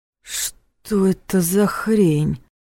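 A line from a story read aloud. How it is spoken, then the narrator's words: Shocked breathless gasp. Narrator (Russian): выдохнул парень, внезапно становясь таким же белым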